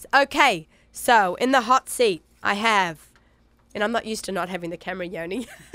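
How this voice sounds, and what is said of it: Nasal congested voice, Australian accent. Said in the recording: “my crazy voice and my crazy cold ... I feel like I sound ridiculous still. My Aussie accent and my runny nose. My nasally voice.”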